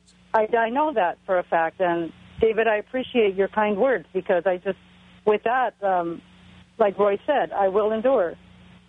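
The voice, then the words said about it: Slight Spanish accent. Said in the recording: “I thought I heard a little Spanish accent ... I'm Mexican.”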